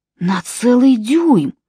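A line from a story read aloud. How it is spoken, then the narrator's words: Breathless exclamation. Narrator (Russian): выдохнул он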